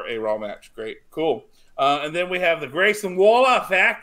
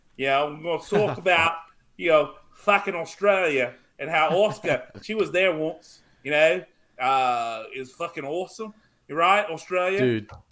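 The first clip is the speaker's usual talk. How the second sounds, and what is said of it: Weak put-on Australian accent. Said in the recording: “you can't do an Australian accent that good.”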